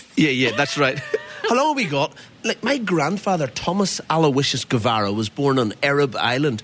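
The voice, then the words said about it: Irish accent. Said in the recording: “with that accent ... you're very Irish”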